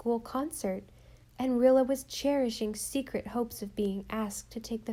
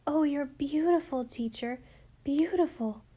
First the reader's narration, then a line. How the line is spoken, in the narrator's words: gasped Rilla adoringly